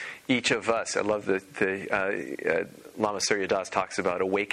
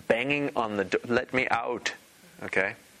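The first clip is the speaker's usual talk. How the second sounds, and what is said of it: Slight put-on Pakistani accent. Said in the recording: “I said it with a slight Pakistani accent there.”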